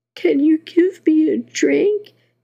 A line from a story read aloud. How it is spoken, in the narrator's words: whimpered